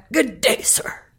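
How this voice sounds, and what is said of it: Imitates Willy Wonka's accent. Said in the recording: “I sound like Willy Wonka ... you actually get that little accent.”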